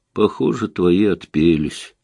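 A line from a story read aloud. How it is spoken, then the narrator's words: Gloomy. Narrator (Russian): мрачно сказала Наташа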